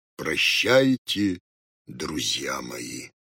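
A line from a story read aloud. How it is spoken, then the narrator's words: Tearful, sepulchral voice. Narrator (Russian): заплакал, гробовым голосом сказал им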